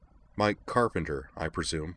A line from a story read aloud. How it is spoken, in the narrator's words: Utina said, keeping her voice even